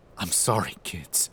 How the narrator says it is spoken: mutter

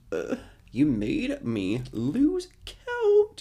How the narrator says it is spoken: Harry Olson groans

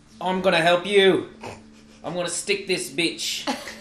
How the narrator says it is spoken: I see my friends in imminent peril, and so I yell out

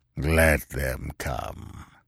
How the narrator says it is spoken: grunted Yar Afzal

